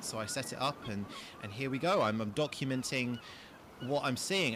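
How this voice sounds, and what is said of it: Posh nobleman accent. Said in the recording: “I've been speaking with my normal nobleman accent”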